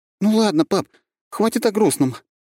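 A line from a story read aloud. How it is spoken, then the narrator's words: Forced cheerful exclamation. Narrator (Russian): воскликнула девчонка с показным оптимизмом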